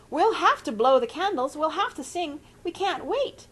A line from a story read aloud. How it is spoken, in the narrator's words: shrieked Mrs